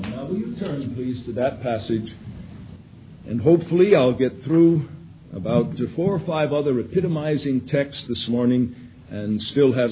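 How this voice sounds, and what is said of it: Weakened voice recovering from laryngitis. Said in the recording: “since I'm just testing my voice, since coming back from the laryngitis, I'm trying to keep a rein on it... at times I tail off a little bit... I'm still not completely out of the woods and back to full strength with the voice box”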